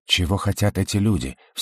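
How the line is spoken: Anxious whisper. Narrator (Russian): встревоженно прошептал Родерик

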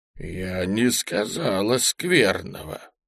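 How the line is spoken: Gloomy voice. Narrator (Russian): проговорила она каким-то сумрачным голосом

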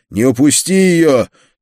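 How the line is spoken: Shouting after someone. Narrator (Russian): крикнул я вслед убегающему цыгану

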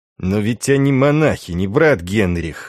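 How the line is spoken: Words through gritted teeth. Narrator (Russian): снова вмешался Дан, цыдя слова сквозь зубы

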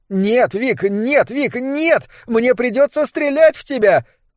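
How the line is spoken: Shout. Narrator (Russian): крикнула Табита Хаттер

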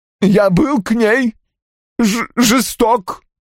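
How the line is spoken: Groaning. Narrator (Russian): простонал Рой

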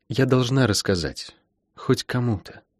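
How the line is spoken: Whisper. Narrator (Russian): прошептала она

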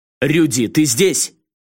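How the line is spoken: Shouted. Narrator (Russian): крикнул

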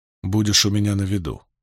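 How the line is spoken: Quiet. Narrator (Russian): тихо сказал Ранд

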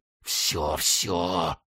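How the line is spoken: Breathless angry whisper. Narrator (Russian): задыхаясь, шептал он, злобно

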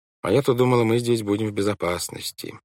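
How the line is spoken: Gloomy. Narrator (Russian): мрачно произнесла Вайолет

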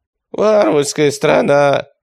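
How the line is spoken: Groaning. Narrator (Russian): простонал Яцек

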